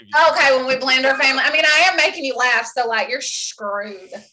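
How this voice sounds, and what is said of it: Southern drawl mixed with Canadian. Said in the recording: “You got that southern drawl, but you got some Canadian maple syrup shit in you too”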